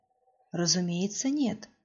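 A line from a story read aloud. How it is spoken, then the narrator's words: Calm reply. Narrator (Russian): спокойно откликнулся Алази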